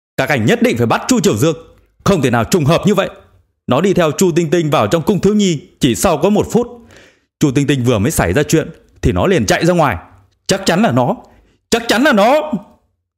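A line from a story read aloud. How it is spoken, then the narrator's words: Insistent wailing. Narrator (Vietnamese): Vương Giao đã nhận định chắc chắn ... kiên trì kêu gào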